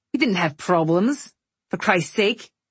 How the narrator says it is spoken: he snapped

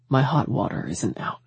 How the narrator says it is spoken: he said softly

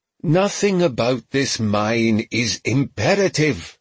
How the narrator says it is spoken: Haverford growled

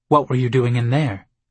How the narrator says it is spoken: My tone came out sharper than I meant it to

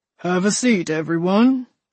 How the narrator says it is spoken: said in a deep voice that could have easily anchored the bass section in a church choir

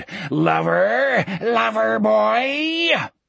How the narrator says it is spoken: The mouths in the coarse bark howled and screamed

